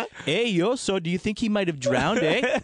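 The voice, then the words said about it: Exaggerated Canadian accent. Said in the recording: “the most obvious Canadian accent ... Bob and fucking Doug McKenzie”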